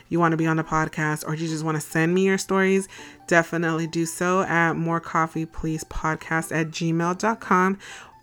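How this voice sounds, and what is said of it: Voice slightly off, sick-sounding. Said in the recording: “my voice is a little off. Like I said, I got sick on Saturday.”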